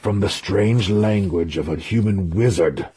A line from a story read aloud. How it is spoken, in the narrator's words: he growled